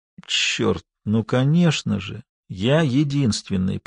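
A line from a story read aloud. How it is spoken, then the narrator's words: Slow. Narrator (Russian): произнес он медленно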